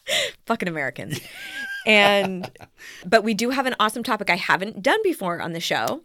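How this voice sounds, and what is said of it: Usual voice. Nothing is said of it.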